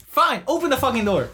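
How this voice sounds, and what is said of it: Yelling. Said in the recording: “why are you yelling?”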